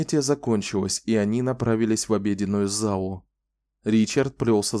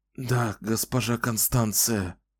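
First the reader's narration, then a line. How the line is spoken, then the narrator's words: Hoarse whisper. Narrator (Russian): хрипло прошептал он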